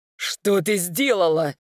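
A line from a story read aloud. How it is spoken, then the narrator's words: Furious male growl. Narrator (Russian): в ярости прорычал мужчина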